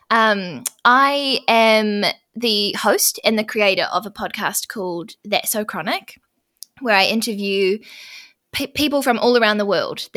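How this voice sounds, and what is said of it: New Zealand accent. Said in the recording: “I'm from New Zealand, if you can't tell from my accent already.”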